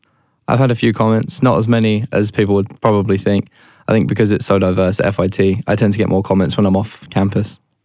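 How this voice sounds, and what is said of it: British accent. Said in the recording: “your accent ... the British accent”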